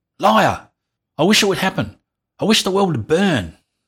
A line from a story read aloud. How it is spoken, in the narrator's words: Andrew pulled away from his mother, sprang to his feet and yelled